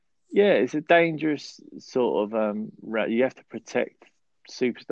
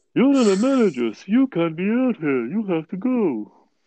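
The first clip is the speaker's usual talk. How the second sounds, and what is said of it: Imitates another person's voice. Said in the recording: “Gordon impression ... It was a good Todd Gordon impression.”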